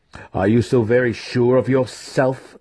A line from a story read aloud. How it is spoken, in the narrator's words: Zack growled, stubbornly